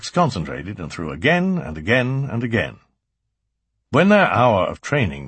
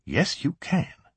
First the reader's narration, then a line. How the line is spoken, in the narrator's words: she said smoothly